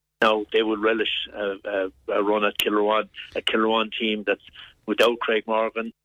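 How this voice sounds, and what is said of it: Distinctive Lochmore regional accent. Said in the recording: “Pretty, very recognisable voice, I suppose... It's a very distinctive Lochmore accent,... they all sound the same.”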